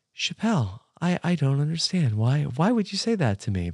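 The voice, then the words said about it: Imitates a TV character's voice. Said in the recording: “your impersonation of Daniel Hardman ... it's giving Lil from Survivor Pearl Islands ... the Daniel Hardman accent”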